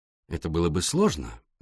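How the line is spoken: Soft. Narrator (Russian): мягко произнес Пуаро

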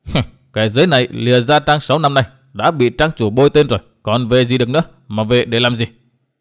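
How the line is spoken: Reply with scornful laugh. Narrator (Vietnamese): đáp qua tiếng cười nhạt

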